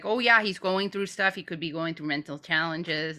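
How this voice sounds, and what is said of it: Put-on Canadian accent, done well. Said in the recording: “that's a good Canadian accent.”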